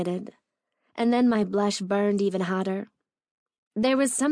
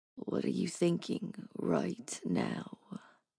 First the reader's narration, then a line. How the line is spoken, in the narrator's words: asked in a husky voice